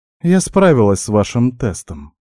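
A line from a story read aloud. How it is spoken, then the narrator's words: Calm, young woman. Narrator (Russian): спокойно заявила девушка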